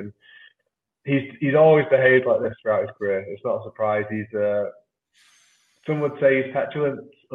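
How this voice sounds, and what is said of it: Manchester English accent. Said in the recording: “my accent betrays, I come from Manchester.”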